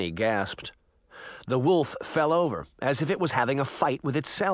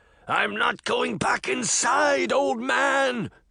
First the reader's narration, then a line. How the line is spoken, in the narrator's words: the beast bellowed